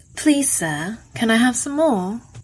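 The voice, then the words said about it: Terrible put-on British accent. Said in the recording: “Tony said in a terrible British accent”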